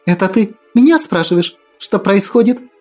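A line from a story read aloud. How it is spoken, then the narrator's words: Sudden shriek. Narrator (Russian): Неожиданно взвизгнула Акулина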